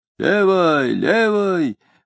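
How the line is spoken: Hoarse advice. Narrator (Russian): хрипло советовал высокий солдат

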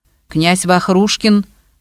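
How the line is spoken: Stern interjection. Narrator (Russian): строго вмешался Губарев

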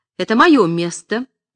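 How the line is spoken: Woman shouting. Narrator (Russian): кричала женщина

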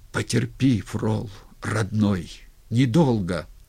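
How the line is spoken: Quiet hurried pleading. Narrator (Russian): Глотнул слюну и еще сказал тихо, с мольбой, торопливо

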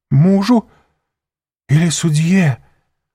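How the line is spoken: Faltering babble. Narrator (Russian): пролепетала госпожа де Вильфор

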